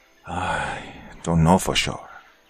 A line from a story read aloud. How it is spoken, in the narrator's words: said with a sigh